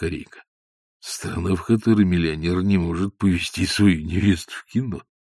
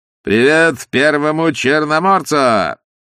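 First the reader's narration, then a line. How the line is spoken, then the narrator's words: Shout over engine roar. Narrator (Russian): крикнул Остап, когда машина с тракторным грохотом проносилась мимо Корейки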